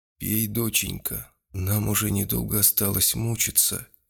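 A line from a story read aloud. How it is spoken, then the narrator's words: Unexpectedly tender woman's voice. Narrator (Russian): неожиданно ласково и вполне осмысленно произнесла женщина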